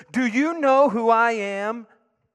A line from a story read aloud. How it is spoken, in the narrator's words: in a very loud voice, he said, for everyone to hear